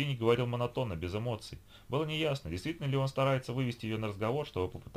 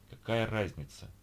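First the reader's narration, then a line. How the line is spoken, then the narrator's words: Heavy sigh. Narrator (Russian): Ольга тяжело вздохнула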